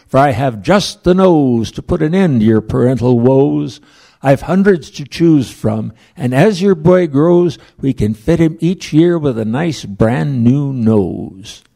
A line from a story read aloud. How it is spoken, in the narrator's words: cried McSneed